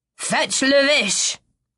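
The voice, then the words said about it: Terrible drawled French accent. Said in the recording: “he drawls out in a terrible French accent.”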